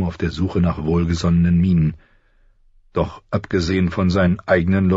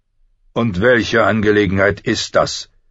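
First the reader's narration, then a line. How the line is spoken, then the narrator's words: Icy voice. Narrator (German): sprach Ned mit eisiger Stimme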